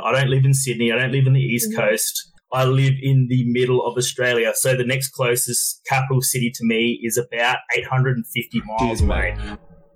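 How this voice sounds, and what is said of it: Thick Australian accent. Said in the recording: “He's got a pretty fucking thick accent... That's a thick one... I have a really thick Australian accent”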